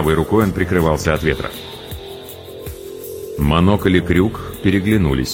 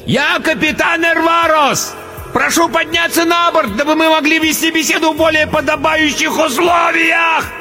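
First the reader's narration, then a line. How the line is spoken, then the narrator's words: Roar over blizzard. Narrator (Russian): проревел, перекрывая вой метели, толстяк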